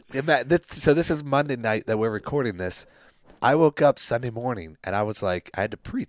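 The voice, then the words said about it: Damaged, nearly lost voice. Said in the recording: “What is wrong with your voice? ... my voice was gone”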